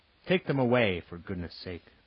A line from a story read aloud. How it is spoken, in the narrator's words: the inspector said crossly